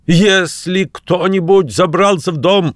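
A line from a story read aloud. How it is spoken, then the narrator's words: Shouting angrily, cursing. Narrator (Russian): закричал он, крепко выругавшись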